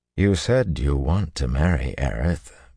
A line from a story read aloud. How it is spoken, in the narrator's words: Rand said as gently as he could